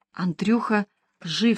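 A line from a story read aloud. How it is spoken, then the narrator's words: Whisper. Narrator (Russian): сказал Иван шепотом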